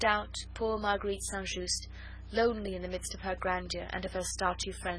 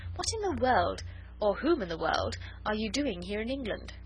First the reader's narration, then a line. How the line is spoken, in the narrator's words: she added merrily